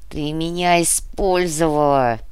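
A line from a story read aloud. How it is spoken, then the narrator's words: Hoarse rasp. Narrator (Russian): прохрипел Дитрих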